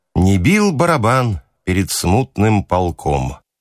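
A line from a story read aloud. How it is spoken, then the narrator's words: Gloomy singing. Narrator (Russian): запевал мрачно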